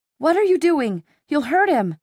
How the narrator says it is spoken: Clary cried out

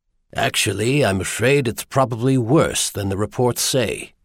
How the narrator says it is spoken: he said quietly

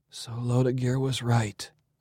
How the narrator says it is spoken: sighed

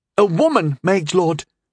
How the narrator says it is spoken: Fess said excitedly

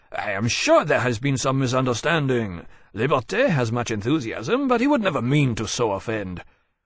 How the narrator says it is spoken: Murat exclaimed at the accusation and said

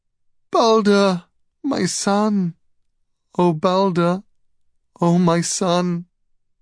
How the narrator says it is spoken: she wailed

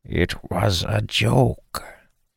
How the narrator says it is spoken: Dalen ... in the same conspiratorial tone the bringer had used, said

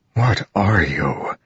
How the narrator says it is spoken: whispered, eyes watering with pain

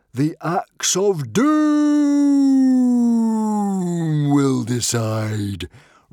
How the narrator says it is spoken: roared Norbert

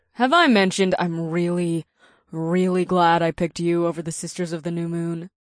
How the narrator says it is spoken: Naomi purred

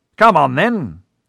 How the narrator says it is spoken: he said loudly

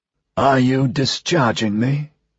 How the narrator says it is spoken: croaked

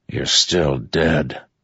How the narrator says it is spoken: Zyle said with a grunt

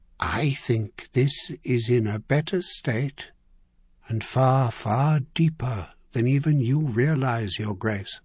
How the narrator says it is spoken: he said softly

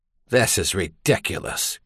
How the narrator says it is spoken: Caleb muttered

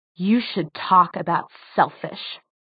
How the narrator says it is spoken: she hissed so viciously

